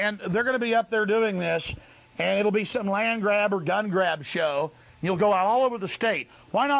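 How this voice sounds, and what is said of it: Usual voice. Nothing is said of it.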